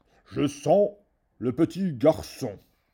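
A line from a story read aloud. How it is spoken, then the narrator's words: Roar. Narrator (French): rugit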